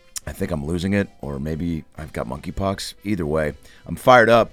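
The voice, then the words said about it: Strained, hoarse voice. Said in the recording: “Excuse my voice.”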